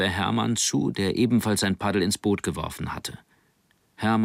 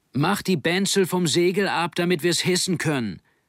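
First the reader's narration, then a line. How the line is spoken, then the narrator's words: Calling out. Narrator (German): rief er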